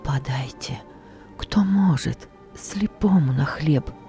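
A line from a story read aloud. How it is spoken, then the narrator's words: Whisper. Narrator (Russian): Не крик, только шепот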